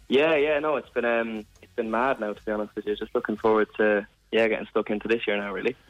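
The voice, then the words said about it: Laid-back Irish Midlands accent. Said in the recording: “loving the Mullingar accent ... There's nothing better than an old Midlands accent. ... It's very laid back and casual”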